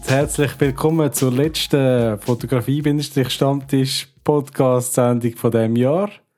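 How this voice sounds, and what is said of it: Swiss German dialect. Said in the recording (German): “Fotografie-Podcast in Schweizer Mundart”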